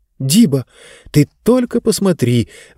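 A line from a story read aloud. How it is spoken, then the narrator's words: Amazed exclamation. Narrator (Russian): воскликнула изумленная Занна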